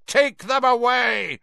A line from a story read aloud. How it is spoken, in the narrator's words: Crouch roared at the Dementors, spit flying from his mouth